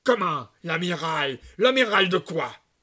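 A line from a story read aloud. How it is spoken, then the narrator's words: Grumpy. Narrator (French): reprit d'un ton de mauvaise humeur Maître Louis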